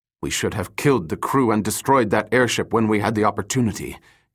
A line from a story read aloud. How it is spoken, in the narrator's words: Kim hissed